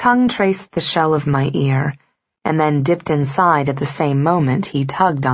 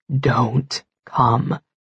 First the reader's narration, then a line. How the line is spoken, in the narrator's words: he repeated, his voice hoarse